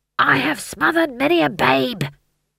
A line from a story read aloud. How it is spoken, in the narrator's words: he hissed